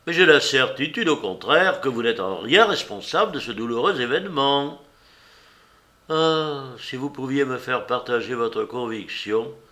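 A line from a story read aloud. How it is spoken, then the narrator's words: Exclaimed. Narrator (French): s'écriait Bellegarde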